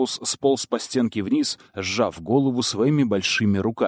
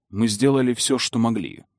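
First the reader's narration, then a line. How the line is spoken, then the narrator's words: Plain. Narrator (Russian): сказал Вернон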